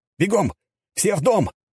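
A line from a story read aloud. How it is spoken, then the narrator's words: Shout. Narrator (Russian): закричал я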